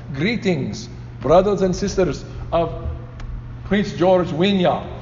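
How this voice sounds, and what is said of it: Imitated African accent. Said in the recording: “my best impression of Fred's voice ... with his accent”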